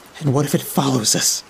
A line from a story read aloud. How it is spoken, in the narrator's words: Sally whispered